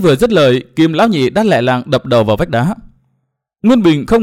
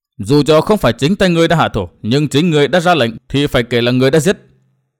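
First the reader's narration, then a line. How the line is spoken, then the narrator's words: Stern voice. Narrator (Vietnamese): Nguyên Bình nghiêm giọng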